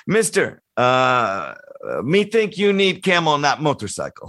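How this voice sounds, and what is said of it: Put-on foreign accent, broken English. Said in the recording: “pardon the accent. It's not really the accent, but I'll just do it.”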